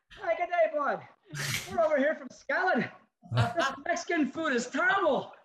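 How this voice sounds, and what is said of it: Put-on foreign accent, comic voice. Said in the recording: “you had to come up with a unique accent and personality for each different place ... having to talk like that the whole time”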